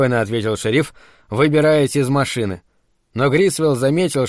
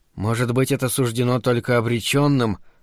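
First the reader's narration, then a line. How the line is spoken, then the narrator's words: Whispered. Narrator (Russian): прошептал Грисвилл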